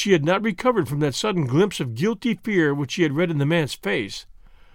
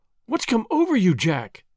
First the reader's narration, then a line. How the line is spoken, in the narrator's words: she cried